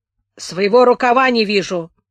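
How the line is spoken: Gloomy grumbling helmsman. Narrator (Russian): мрачно проворчал рулевой

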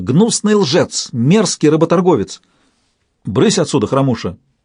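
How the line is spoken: Stern shout. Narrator (Russian): строго прикрикнула Сейлах

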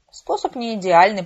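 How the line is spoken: Grumbling. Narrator (Russian): проворчал Харрис

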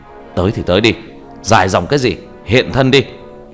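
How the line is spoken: Slow breath, raised voice. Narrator (Vietnamese): Chậm rãi hít một hơi, cao giọng

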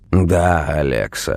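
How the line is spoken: Dry reply. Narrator (Russian): сухо ответил он

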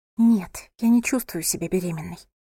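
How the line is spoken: Whisper. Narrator (Russian): прошептала София

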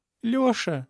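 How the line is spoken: Sobbing. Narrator (Russian): всхлипнула она и вдруг зарыдала

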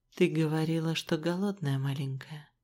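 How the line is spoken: Tender, smiling voice. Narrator (Russian): сказал он мне, так нежно улыбаясь

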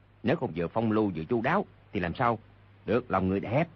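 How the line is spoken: Low laughing chatter. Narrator (Vietnamese): hạ giọng bàn tán cười nói

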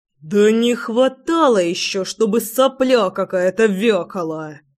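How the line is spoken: Contemptuous words through teeth. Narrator (Russian): Процедил тот самый Егор с поломанным клювом

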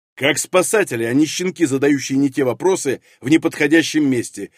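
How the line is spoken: Barking. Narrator (Russian): рявкнул прапор

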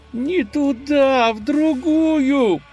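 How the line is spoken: Moaning. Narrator (Russian): простонал Юлий

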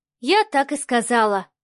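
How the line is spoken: Sighing. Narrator (Russian): вздохнула Марианна

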